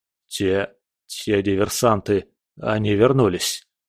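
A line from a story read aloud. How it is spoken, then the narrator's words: Breathless. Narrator (Russian): выдохнул Шмидт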